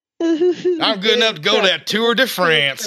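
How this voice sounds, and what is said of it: Exaggerated rural hick accent. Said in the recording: “you just sound like a hick. You just step out of your pickup truck.”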